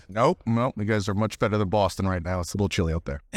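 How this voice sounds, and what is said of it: Boston accent. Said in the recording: “that lovely Boston accent”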